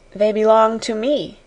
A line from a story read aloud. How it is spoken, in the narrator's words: answered Sarah quietly